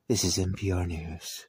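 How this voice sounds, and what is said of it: Stuffy NPR newsreader voice. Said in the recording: “talk like NPR News, America? It sounds like we all have colds”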